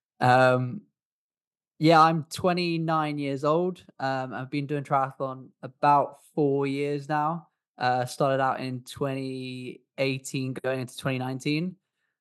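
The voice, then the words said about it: English accent. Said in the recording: “I was originally from England, which is why I've got an English accent.”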